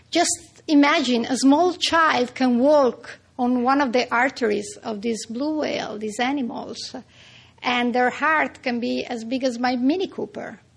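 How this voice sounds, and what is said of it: Strong Italian accent. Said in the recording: “I kept this good, strong Italian accent.”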